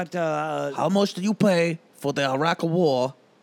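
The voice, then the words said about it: Imitates another person's voice. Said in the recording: “You sound Asian ... That's not even my Asian. That's my Bernie.”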